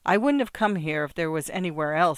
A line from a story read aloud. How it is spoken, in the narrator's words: says Erica